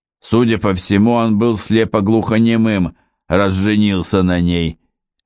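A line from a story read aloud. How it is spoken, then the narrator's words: Gruff tone. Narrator (Russian): грубо сказал Гровер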